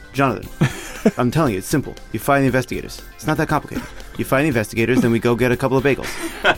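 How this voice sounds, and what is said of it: Put-on Italian New York accent. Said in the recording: “It's like a sort of Italian accent, but sort of New York ... I'm kind of doing vaguely like an uncle”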